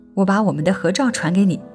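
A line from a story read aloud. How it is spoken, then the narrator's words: Muttering. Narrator (Chinese): 她 嘀咕着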